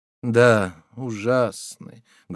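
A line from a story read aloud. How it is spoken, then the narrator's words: Sad. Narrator (Russian): грустно проговорила Ханжа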